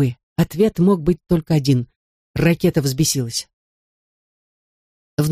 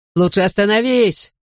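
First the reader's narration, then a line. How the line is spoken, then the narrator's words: Yelled from behind. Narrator (Russian): заорал мне в спину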